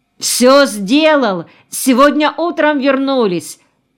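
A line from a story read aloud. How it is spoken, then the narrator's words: Thin distant shout. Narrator (Russian): тонко крикнул еще издали Куценко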